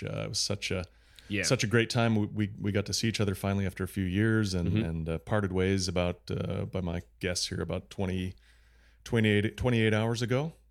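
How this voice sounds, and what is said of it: Slightly scratchy, recovering voice. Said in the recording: “My voice is coming back. I still have a bit of a kind of a scratchy throat just from talking so much.”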